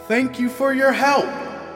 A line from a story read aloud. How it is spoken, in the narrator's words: yelled